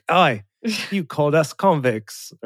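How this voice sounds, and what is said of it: Poor fake Australian accent. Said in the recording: “that was also terrible ... even worse. That wasn't even like a close approximation of an Australian accent. ... No, it wasn't good at all.”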